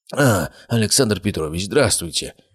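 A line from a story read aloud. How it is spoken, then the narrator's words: Mumbling. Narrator (Russian): пробормотал он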